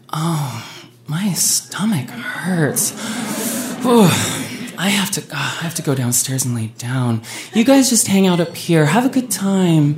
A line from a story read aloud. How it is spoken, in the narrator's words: Heather, within a matter of minutes, groaned and was like